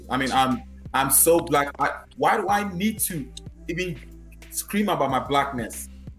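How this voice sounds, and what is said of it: West African accent. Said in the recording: “When you hear my accent, you won't get lost. You know it's somewhere in West Africa.”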